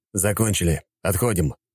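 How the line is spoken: Quiet. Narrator (Russian): негромко произнес Рыков

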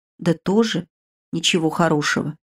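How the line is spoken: Embarrassed mumble. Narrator (Russian): пробормотала, смутившись

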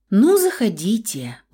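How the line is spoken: Boy sighing. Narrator (Russian): вздохнул мальчик

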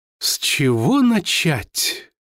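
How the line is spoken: Thoughtful drawl. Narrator (Russian): Задумчиво протянул Амброс

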